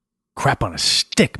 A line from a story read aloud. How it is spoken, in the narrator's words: Max muttered